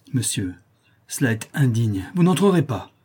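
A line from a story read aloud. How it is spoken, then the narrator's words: Distraught mother exclaiming. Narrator (French): s'écria la malheureuse mère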